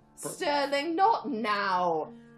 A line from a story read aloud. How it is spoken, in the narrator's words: Mallory groaned